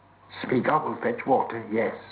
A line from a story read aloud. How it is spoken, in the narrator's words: said Gollum